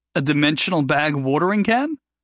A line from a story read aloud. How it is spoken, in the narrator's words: Jory chuckled